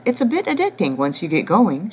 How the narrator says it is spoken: she said, laughing

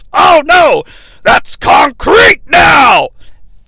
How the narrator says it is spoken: Vince yells

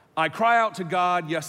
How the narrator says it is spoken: I shout

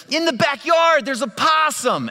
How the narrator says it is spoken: my wife and my kids, they're yelling

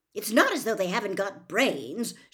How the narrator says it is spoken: she continued irritably

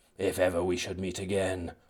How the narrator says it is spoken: I muttered to myself

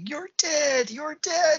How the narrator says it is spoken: Herod's screaming

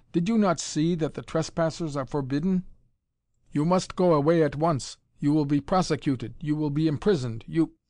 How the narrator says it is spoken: Tommy said irritably

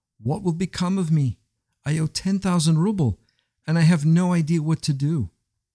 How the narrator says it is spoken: he cried out

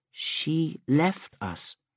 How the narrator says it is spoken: Meshana said, hesitantly

